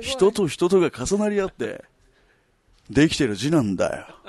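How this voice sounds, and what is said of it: Very accurate imitation of another's voice. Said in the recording (Japanese): “福山雅治バージョン ... ちょっと完成度が良すぎて”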